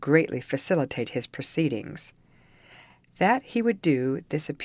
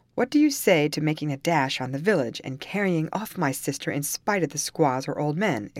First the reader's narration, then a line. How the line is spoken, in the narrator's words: exclaimed Carlos